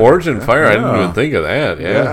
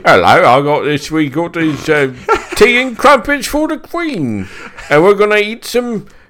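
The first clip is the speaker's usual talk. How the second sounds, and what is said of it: Put-on British accent. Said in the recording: “I can do a pretty good British accent”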